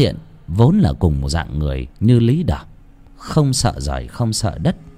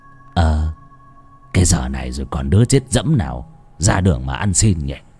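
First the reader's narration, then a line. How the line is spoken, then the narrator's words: Doubtful old man muttering. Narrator (Vietnamese): Bán tín bán nghi, lão lẩm bẩm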